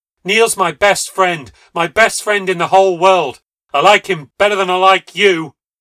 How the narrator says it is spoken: suddenly got so angry, and he cried

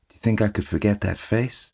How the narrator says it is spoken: she murmured

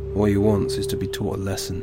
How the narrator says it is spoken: sighed the Alpha

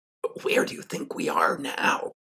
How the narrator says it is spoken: I asked Rascal in a whisper

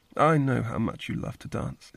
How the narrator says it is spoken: she sighed

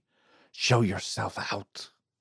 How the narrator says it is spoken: Esther hissing at Archie

